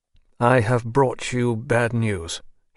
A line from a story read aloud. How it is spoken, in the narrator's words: he said, in a monotonous voice